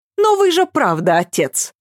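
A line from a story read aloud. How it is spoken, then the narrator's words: Sarcastic announcement. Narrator (Russian): объявила Ася язвительно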